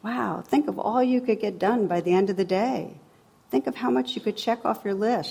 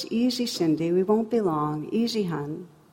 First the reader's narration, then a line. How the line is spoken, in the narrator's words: grandma's saying in a controlled voice